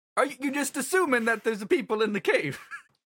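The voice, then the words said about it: Bad Mario cartoon character voice. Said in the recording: “doing a terrible Mario voice ... Mario”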